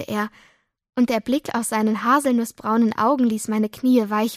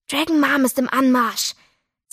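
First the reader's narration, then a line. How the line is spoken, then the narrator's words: Warning hiss. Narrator (German): zischte Doro warnend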